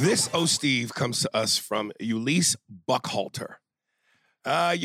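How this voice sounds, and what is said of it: Usual voice. Nothing is said of it.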